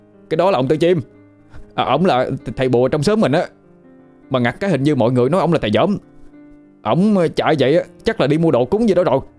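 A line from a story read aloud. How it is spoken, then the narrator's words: Shouting over the wind. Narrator (Vietnamese): Lân nó hét lên ác tiếng gió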